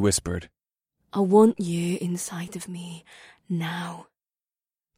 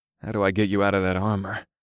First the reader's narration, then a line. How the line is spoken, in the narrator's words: I growled as my blood rose